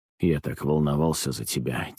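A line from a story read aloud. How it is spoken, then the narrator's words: Quiet mumble. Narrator (Russian): тихо пробормотал он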